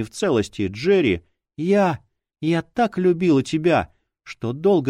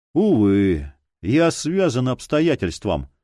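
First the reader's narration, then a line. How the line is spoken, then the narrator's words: Loud sigh. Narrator (Russian): громко вздохнул Роджеральд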